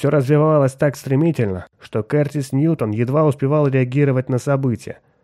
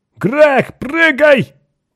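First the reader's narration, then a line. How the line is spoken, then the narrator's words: Hurried shout. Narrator (Russian): успел крикнуть капитан Фьючер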